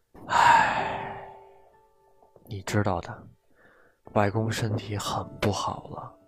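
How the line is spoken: Sighing, softened. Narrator (Chinese): 母亲叹了口气，语气缓和下来

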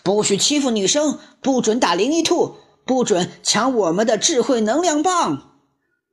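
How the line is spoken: Loud shout while fighting. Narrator (Chinese): 笨狼 一边打一边大声喊

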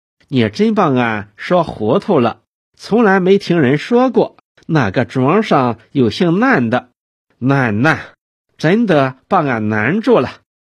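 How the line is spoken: Puzzled, smiling. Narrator (Chinese): 杨秀英蹙起淡淡的眉毛，笑笑

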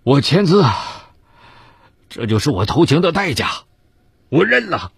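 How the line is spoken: Long sigh. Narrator (Chinese): 李波长叹一声

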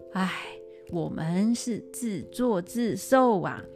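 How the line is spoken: Group sighing. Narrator (Chinese): 大家呢都叹口气说

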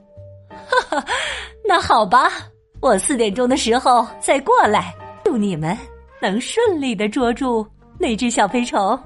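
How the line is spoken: Laughing. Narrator (Chinese): 麦耶夫人笑着说

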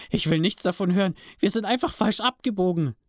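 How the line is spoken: Shouting. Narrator (German): schrie Toby jetzt

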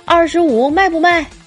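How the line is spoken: Man shouting. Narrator (Chinese): 那大叔喊道

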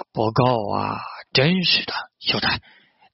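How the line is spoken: Gloomy muttering. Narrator (Chinese): 武田孝直郁闷地嘟囔着

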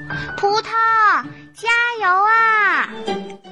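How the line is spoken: Loud calling. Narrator (Chinese): 小猫咪和小花狗大声的呼喊着

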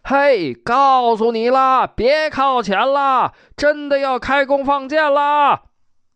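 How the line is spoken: Shouting soldier. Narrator (Chinese): 城头上士兵喊

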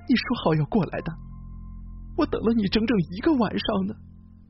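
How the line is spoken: Woman crying on phone. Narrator (Chinese): 一个女人在电话里哭着说

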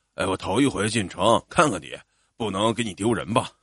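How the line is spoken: Embarrassed laugh. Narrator (Chinese): 爸爸 不好意思的笑了笑

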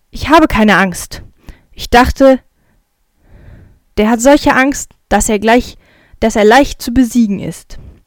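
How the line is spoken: Growling back. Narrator (German): Der andere knurrt zurück

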